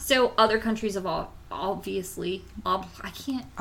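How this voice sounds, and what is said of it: Slurred, sleepy speech. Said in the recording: “I'm slurring my speech. My sleep deprived.”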